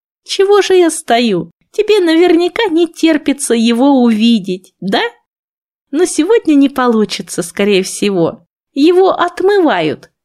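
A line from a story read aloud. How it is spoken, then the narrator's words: Happy. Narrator (Russian): проговорила она тем же счастливым голосом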